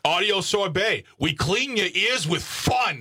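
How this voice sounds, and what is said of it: Faded New York accent, hostile tone. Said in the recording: “Sounds a little hostile ... what is this accent? ... It's just enough to be funny, not enough to be offensive. ... It's like a guy who moved out of New York like 30 years ago. ... And still hostile.”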